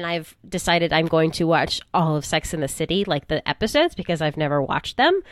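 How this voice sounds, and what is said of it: Sick, flu-affected voice. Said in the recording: “I've been battling round 2 of the flu, which is why my voice sounds like it does. And I'm doing a lot of coughing”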